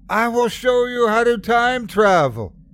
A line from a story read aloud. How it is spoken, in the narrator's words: he screamed